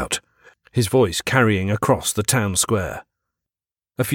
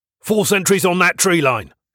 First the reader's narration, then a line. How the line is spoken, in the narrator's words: he called out